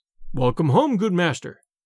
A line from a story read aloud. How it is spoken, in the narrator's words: cried the shepherd